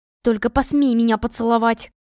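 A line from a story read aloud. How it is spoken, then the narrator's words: Hissing. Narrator (Russian): прошипела я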